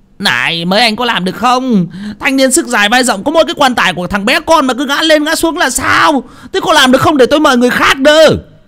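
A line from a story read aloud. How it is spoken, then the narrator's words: Angry shouting. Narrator (Vietnamese): ông Bình tức giận quát lên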